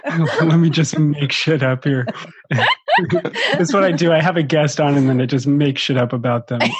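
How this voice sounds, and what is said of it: Usual voice. Nothing is said of it.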